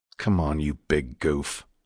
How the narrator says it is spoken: growled Ledger

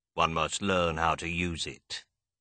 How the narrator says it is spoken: he said

